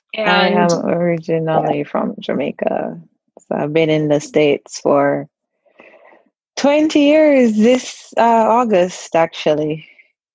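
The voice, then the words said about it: Jamaican accent. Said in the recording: “I love your accent. I could listen to you talk all day. ... You think I lost my accent by now?”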